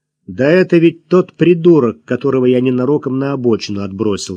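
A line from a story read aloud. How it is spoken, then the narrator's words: Annoyed grumble. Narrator (Russian): с досадой проворчал Максим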